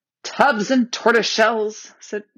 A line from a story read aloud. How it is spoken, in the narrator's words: exclaimed Trumpkin